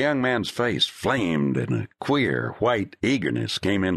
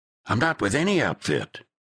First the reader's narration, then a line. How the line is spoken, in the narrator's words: said sharply